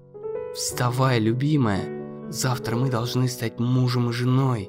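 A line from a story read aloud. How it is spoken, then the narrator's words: Prince whispering in ear. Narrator (Russian): прошептал принц на ухо девушке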